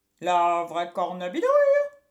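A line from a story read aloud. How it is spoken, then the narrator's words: Exclaimed. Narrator (French): s'exclama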